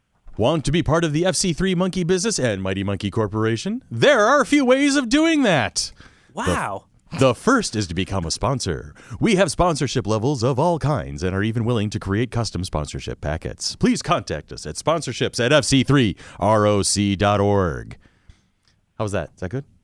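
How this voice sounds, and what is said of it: Over-the-top radio announcer voice. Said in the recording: “radio announcer voice ... Over the top”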